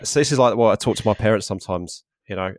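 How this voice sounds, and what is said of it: Broad Essex accent. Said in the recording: “I'll just drop my old Essex accent ... I'll just slip back”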